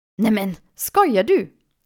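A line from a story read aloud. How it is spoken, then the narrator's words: Exclaiming. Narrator (German): rief sie aus, als sie die Küche sah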